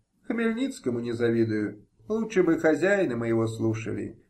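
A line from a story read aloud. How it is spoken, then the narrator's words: Sad. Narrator (Russian): печально сказал Самойло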